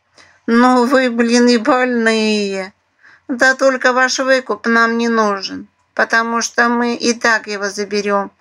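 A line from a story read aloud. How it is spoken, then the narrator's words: Hoarse snort. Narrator (Russian): хрипло фыркнула Айзулидзе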